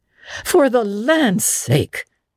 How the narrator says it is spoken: gasped Marilla

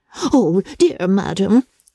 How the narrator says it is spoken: cried Mrs

